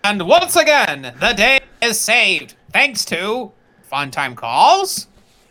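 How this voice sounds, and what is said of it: Imitates a cartoon narrator voice. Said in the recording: “do your best impression of the narrator from the Powerpuff Girls cartoon”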